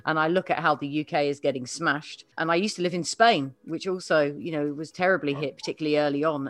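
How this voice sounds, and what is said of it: Non-local accent. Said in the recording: “you can hear by my accent, I'm not from these parts originally”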